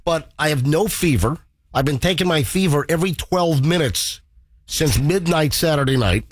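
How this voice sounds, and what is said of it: Stuffed-up, strained voice. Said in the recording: “You sound knocked out. ... my voice, I'm a little like, you know, stuffed up sounding, or my voice is strained”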